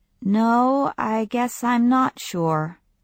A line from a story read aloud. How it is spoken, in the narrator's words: she said evenly